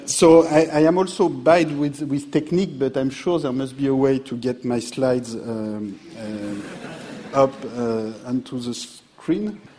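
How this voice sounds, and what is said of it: French accent. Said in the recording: “these 2 years that I spent at LSE as a student were not enough to change my French accent”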